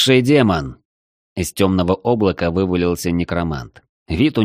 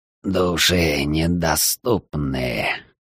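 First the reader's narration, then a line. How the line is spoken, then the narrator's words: Unpleasant hoarse voice. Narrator (Russian): раздался неприятный хриплый голос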